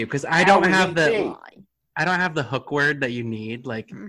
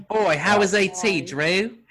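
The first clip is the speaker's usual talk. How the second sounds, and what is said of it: Put-on Australian accent. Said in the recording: “Australian accent... When you do an Australian accent, you got to start with oi.”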